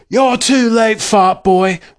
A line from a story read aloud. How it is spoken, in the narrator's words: roared W